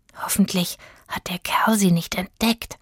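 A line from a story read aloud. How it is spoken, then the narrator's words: Whispered. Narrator (German): flüsterte Rufus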